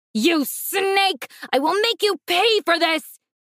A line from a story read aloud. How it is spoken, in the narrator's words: he roared